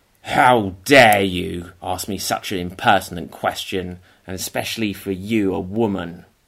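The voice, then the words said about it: Angry Scrooge character voice. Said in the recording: “Ooh, you like Scrooge? ... Yes, I'm Scrooge. ... Oh, wow, that was good. ... my impression there”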